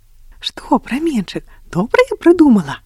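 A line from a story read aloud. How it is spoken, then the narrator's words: Smiling. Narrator (Belarusian): усміхнулася Агнеса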